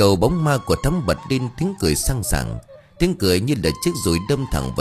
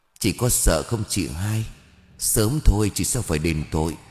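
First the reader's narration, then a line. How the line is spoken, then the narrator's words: Faint, powerful, through teeth. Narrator (Vietnamese): Thắm với giọng nói thều thào nhưng đầy quyền lực nghiến răng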